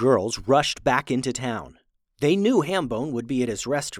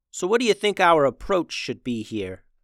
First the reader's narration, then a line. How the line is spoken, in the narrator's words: asked Devni